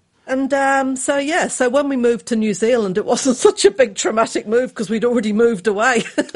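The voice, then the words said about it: English accent. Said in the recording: “So as you can hear... I've kept the accent... we were 10-pound Poms”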